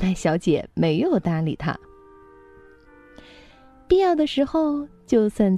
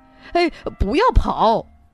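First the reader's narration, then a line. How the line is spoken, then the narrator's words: Laughing shout from behind. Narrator (Chinese): 马彬先生笑了，他在后面喊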